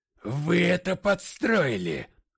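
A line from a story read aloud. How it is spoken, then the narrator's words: Furious growl. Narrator (Russian): прорычал я в припадке ярости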